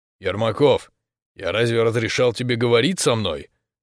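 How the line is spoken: Stern question. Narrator (Russian): суровым тоном спросил дядя

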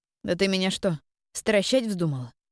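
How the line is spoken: Young woman's snort. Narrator (Russian): хмыкнула девушка

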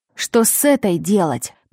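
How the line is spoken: Hiss. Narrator (Russian): прошипел он

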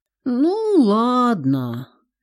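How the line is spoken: Resigned, rueful drawl, daughter. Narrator (Russian): смирившись, сокрушенно протянула дочь

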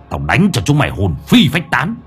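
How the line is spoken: Harsh menacing voice. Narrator (Vietnamese): Lão Năm gằn giọng

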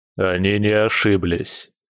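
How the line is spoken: Gloomy male reply. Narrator (Russian): мрачно отозвался мужчина

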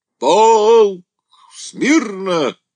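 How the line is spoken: Shout, breaking off. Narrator (Russian): крикнул тут Андрей и сразу замолчал, чувствуя, что не сможет говорить громко

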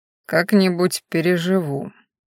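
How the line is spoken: Grim reassurance. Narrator (Russian): мрачно заверил он

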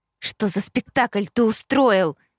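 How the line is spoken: Hiss. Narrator (Russian): зашипела я

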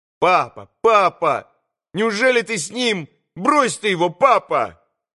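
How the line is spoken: Boy's sudden shout. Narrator (Russian): крикнул вдруг мальчик

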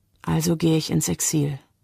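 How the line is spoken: Quiet, female. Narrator (German): sagt sie leise

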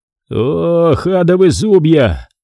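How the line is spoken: Sudden groan. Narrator (Russian): вдруг простонал Хэт

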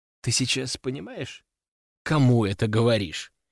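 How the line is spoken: Cold and calm. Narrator (Russian): холодно и спокойно проговорила Катя

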